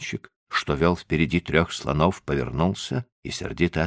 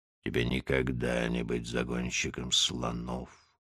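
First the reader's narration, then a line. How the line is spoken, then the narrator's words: Grumbling. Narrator (Russian): Большой Тумай проворчал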